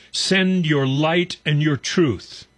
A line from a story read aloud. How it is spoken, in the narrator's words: With David in Psalm 43, we raise a shout